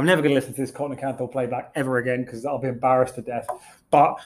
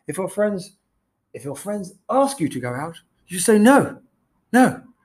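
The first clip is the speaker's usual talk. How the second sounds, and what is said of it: Poor imitation of another person's voice. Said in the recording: “that was the worst impression of Boris Johnson I've ever done in my entire life ... still terrible, still absolutely terrible”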